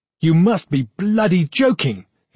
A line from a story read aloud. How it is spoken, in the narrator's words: he shouted